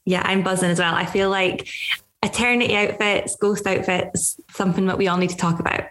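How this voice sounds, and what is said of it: Gorgeous, soothing accent. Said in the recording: “your accent is just gorgeous to listen to. I could listen to it all day, every day. ... It's absolutely ASMR.”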